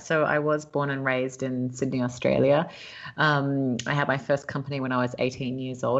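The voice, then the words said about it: Australian accent. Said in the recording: “you have a lovely accent, and I'm sure people are thinking, "Well, how did you get from Australia to LA?"”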